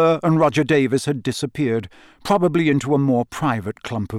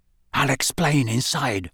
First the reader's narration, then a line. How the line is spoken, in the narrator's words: said Ron quietly